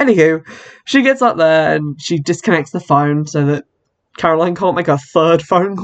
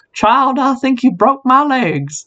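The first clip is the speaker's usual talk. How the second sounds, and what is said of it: Poor put-on old Southern lady accent. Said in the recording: “that was a terrible accent. I was trying to do like an old southern lady. ... Did not come out like that. Sounded like Foghorn Leghorn.”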